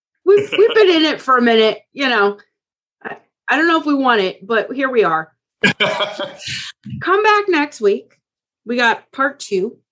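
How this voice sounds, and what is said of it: Tired, worn-out voice. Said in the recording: “I'm tired. My voice is gone.”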